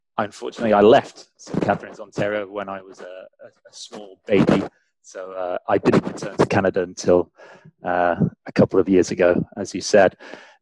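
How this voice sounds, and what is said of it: English accent. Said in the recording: “my weird English accent”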